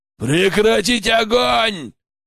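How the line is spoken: Bear's bellowed command. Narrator (Russian): гаркнул медведь

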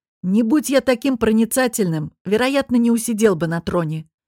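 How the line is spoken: Smug snort. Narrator (Russian): хмыкнул Дамаан

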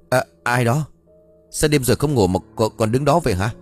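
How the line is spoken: Terrified cry, old man. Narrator (Vietnamese): ông Cẩn hét lên một tiếng kinh hãi

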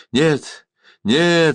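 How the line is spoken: Horrified exclamation. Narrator (Russian): с ужасом воскликнул Маратх

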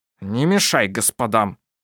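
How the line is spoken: Unsteady grumbling man. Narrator (Russian): проворчал мужчина, который, наконец, встал на ноги и довольно сильно шатался

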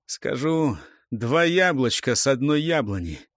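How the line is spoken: Hoarse, muffled voice. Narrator (Russian): произнес сипло, глухо

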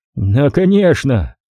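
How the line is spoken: Yell. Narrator (Russian): завопил Ник

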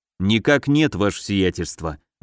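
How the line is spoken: Sigh. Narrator (Russian): вздохнул Гагарин

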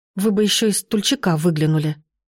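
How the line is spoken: Angry mutter. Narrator (Russian): сердито пробормотала я

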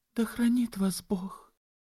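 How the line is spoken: Tearful speech. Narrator (Russian): проговорив сквозь слезы

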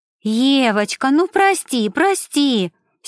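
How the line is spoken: Siren-like wail. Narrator (Russian): сиреной взвыла Мишель

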